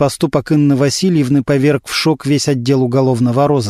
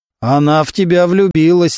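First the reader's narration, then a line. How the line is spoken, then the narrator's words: Booming rich bass. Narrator (Russian): Немирович гаркнул своим сочным басом Мантуленко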